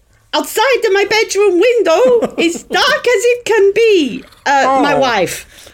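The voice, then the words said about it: Put-on accent sounding Italian. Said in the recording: “All my accents sound Italian”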